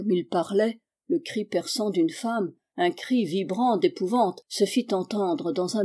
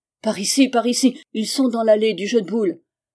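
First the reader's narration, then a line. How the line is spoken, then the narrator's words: Exclaiming. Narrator (French): s'écria l'étranger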